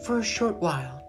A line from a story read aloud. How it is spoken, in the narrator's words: she said gently